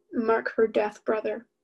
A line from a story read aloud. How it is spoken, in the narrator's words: I said firmly